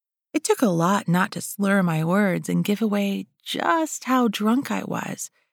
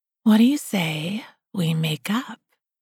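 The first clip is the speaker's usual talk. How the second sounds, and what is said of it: Seductive siren voice. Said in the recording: “in my best siren voice.”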